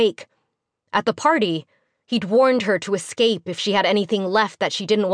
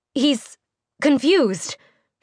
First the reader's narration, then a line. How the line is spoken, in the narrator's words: she stammered